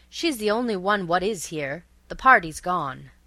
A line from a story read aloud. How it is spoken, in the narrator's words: continued the butler, his voice rising unnecessarily